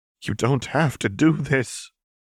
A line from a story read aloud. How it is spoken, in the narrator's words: Vi said shakily